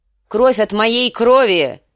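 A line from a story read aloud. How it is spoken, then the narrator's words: Shout. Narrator (Russian): выкрикнул Ракхара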